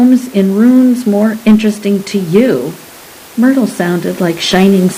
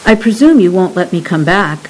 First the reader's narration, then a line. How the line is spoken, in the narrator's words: Myrtle said